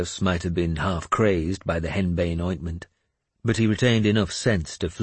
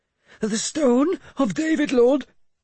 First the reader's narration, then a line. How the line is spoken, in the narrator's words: he panted as he got nearer